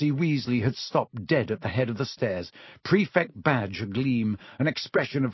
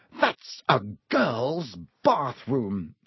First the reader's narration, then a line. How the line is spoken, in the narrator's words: he gasped